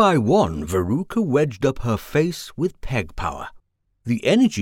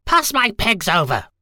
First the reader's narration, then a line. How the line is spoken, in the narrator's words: shouted Veruca